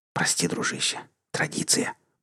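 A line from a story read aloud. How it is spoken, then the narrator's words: Whisper. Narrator (Russian): прошептал тот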